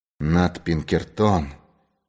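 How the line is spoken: Terrified mutter. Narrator (Russian): в ужасе пробормотал он

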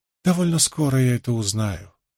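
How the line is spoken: Calm reply. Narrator (Russian): спокойно ответила Морейн

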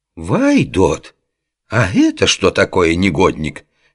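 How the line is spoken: Indignant outburst. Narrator (Russian): Возмущенно завелся Дамулло

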